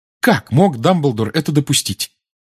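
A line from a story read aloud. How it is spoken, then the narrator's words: Sudden exclamation. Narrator (Russian): вдруг воскликнула Гермиона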